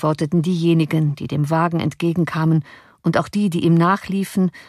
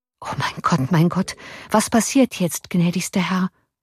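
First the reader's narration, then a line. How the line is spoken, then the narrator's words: Murmuring. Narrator (German): murmelte der Offizier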